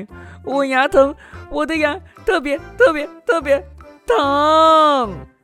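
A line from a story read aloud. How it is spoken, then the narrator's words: Shouting in pain. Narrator (Chinese): 西蒙刚咬了一口甜饼，就大喊起来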